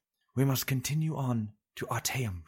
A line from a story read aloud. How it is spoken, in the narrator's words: she said quietly